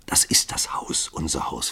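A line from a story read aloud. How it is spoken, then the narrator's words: Whispered. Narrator (German): flüsterte sie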